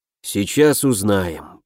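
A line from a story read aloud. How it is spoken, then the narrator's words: Gloomy grumbling man. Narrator (Russian): проворчал разом погрустневший некромант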